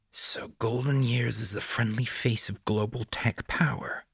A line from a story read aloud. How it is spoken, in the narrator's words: Bear hissed